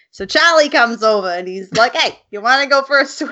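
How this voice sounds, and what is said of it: Accent shifting from Australian to Boston. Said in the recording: “you went from like Australian to, I don't even know, Boston.”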